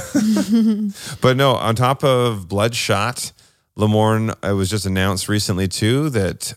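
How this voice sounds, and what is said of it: Usual voice. Nothing is said of it.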